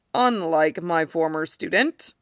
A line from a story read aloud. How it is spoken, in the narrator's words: Hiruzen says dryly